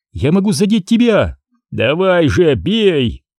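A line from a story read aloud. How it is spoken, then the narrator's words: Shouted through burning pain. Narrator (Russian): крикнул ей Крис, корчась от боли, которую ему приносили щупальца Урабороса, обжигавшие словно гигантская медуза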